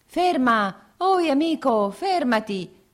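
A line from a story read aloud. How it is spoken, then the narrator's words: Two voices shouting. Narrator (Italian): gridavano due voci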